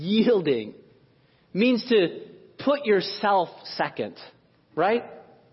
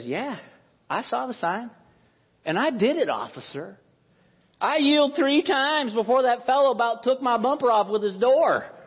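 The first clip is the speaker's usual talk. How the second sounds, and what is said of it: Put-on Southern US accent. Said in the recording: “some folks from down south got a little bit of an accent. So yelling and yielding are a little bit similar.”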